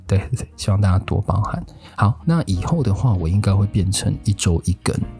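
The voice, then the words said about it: Quiet, hushed speaking voice. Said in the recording (Chinese): “我声音开始有突然很高亢，然后现在又突然变得很小声，是因为我其实是跟室友合住啦，所以不太适合一直大声”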